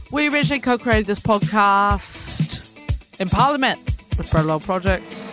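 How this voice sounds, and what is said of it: Put-on shifting Cockney-style British accent. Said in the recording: “your accent's sort of changing throughout ... Cockney, but like professional, but like NPR, but like punk.”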